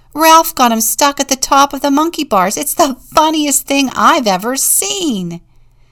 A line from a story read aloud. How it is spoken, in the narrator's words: Tony yelled